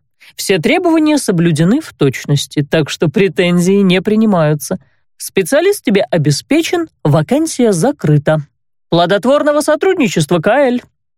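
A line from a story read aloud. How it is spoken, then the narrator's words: Openly mocking tone. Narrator (Russian): Уже откровенно насмешливым тоном пожелал незнакомец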